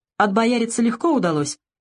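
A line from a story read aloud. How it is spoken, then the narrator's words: Cheerful question. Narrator (Russian): Савелий весело спросил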